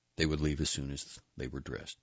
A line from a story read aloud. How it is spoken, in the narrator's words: Jillian said